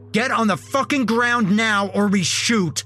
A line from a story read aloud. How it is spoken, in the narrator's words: the other one yelled